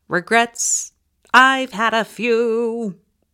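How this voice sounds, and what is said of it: Poorly imitates a famous crooner singing. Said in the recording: “That was my terrible impersonation of Frank Sinatra ... my crummy voice”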